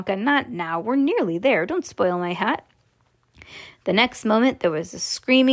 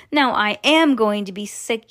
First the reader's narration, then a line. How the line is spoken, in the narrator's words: yelled Mrs